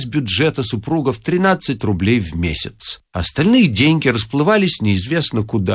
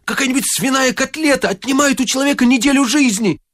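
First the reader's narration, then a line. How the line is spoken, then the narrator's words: Shouting. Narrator (Russian): закричал Коля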